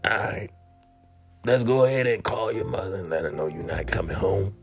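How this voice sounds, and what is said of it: Booming imitated male voice. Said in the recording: “in his booming voice ... my best John impression”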